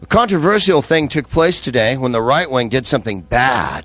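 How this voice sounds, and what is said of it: Imitates a cable news presenter. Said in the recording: “your impression of MSNBC”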